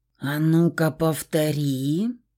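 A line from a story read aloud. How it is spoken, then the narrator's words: Furious hiss. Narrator (Russian): прошипел мужчина, а во взгляде его бушевала гроза, злая, неистовая, готовая вот-вот вырваться наружу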